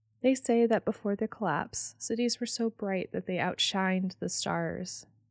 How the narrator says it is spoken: she said quietly

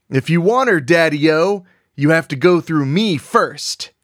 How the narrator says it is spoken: roared

